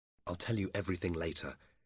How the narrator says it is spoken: Dobbin said quietly

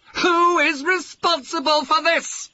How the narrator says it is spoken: He yelled

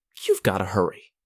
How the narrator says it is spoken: snapped

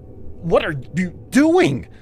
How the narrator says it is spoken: I blurted

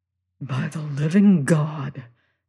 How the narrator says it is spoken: says I in a whisper

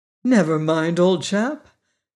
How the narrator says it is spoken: said the Tin Woodman soothingly

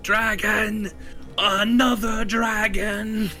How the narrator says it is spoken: A guard starts to kind of run in the other direction, shouting

